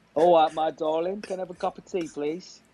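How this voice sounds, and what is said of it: Put-on Cockney accent, fairly good. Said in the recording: “That was quite good. I didn't expect the Cockney.”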